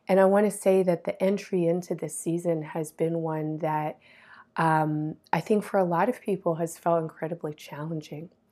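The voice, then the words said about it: Weak, hoarse recovering voice. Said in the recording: “You can maybe hear it in my voice. I've been sick, and my voice is just coming back. It was gone for a few days.”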